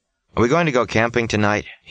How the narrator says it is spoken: he asks

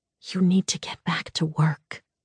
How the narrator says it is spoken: she whispered

